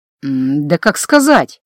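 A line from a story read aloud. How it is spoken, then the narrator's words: Thoughtful drawl. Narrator (Russian): Задумчиво протянул Гордон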